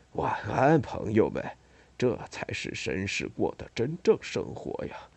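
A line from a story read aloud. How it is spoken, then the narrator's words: Drowsy murmur. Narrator (Chinese): 托德昏昏欲睡，喃喃地说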